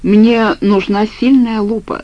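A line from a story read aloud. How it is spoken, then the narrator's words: Plain. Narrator (Russian): сказал я Вадику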